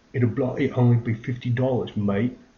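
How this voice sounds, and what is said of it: Bad put-on British accent. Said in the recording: “That's probably the worst British accent ever.”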